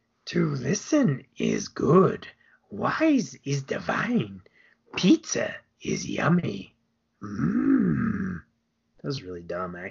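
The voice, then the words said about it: Yoda character voice impression. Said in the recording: “your Yoda impression”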